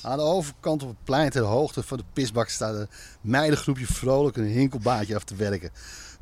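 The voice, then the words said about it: Reading with slight Amsterdam accent. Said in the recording (Dutch): “Eigenlijk moet jij dit voorlezen met een beetje Amsterdam accent.”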